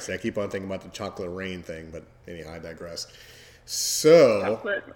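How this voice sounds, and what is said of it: Scratchy, lower-pitched voice. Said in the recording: “my voice is kind of scratchy this evening, so it's a little bit lower of an octave”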